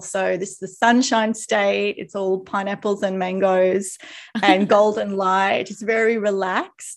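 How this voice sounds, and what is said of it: Australian accent. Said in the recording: “you might tell by my accent, Australian”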